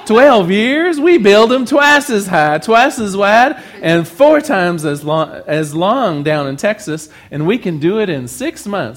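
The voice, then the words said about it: Put-on Texan accent. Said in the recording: “I should try to do the accent ... I'm leaving the accent behind”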